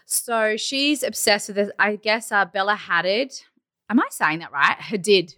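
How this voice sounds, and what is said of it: Australian accent. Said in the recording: “I'll just blame the accent. It's the Australian accent.”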